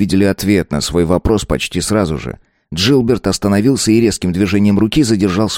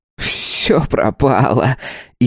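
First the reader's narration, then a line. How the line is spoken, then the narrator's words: Hysterical giggle. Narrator (Russian): истерически хихикнул он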